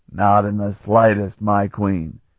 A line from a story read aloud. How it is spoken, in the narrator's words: Stragan said smoothly